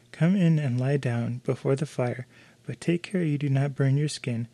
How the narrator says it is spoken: cried the mother

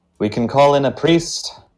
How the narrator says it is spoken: She sighs and says

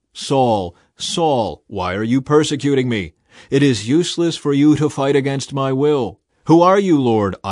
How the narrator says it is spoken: I asked

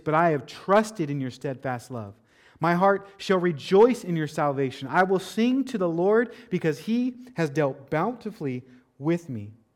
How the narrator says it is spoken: David cried out

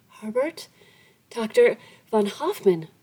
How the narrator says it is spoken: in her agitation she ... exclaimed

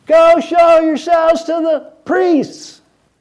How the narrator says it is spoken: He yelled back

